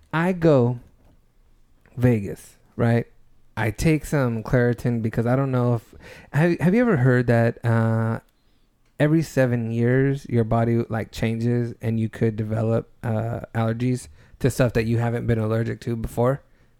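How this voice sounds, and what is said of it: Sick-sounding voice. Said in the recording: “I don't know if everybody can hear it in my voice. I'm still a little sick”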